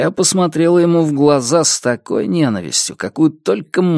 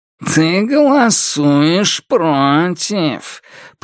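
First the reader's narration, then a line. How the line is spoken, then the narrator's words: Nasal, muffled short man. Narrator (Russian): прогнусавил коротышка сквозь пластик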